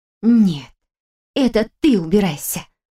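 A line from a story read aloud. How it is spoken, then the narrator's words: Angry hiss. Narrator (Russian): Скорее зло прошипело, чем прошептала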